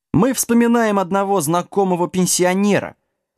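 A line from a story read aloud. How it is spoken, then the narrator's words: Cheerful little dog. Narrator (Russian): радостно пояснил песик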